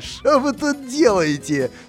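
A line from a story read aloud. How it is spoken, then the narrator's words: Crowd asking, laughing. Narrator (Russian): смеясь спрашивали люди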